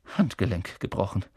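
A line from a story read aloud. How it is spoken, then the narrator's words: Murmured. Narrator (German): hörte Harry sie murmeln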